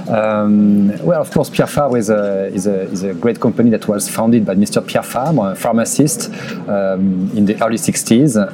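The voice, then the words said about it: Thick French accent. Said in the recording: “my thick French accent. I will try to speak slowly.”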